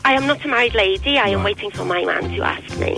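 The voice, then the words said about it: Sounds Welsh. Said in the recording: “You just sounded very Welsh there”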